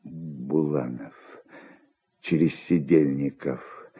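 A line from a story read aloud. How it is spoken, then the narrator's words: Muttering. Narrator (Russian): бормотал он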